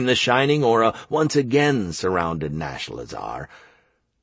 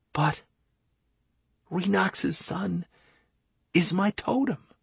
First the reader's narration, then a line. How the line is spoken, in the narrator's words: whispered at a loss